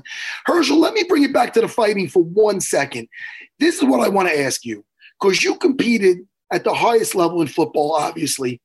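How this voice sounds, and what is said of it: Strained, hoarse voice from yelling. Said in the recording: “my voice is like this. I was coaching, yelling.”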